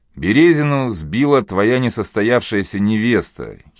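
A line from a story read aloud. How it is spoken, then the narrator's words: Giggling. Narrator (Russian): хихикнул Опарин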